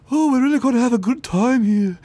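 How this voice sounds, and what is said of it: Put-on Liverpool accent. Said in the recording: “I'm sorry they didn't use a Liverpool accent somewhere in there.”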